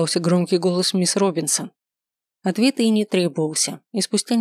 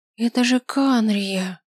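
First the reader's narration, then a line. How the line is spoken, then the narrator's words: Shocked gasp. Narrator (Russian): потрясенно выдохнул Шелли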